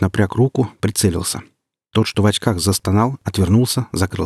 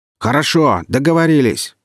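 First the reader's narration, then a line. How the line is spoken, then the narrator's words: Shouting again after pause. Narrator (Russian): после минутной паузы вновь орал Карабас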